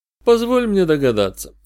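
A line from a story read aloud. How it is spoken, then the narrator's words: Weary suggestion. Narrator (Russian): устало предложил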